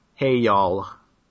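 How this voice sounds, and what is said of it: Put-on American accent. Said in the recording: “your best American accent”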